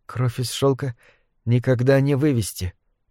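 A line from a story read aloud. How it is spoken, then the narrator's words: Whispered. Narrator (Russian): прошептал Уэйн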